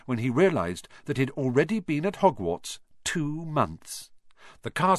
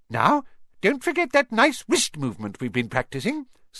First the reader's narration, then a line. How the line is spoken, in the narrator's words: squeaked Professor Flitwick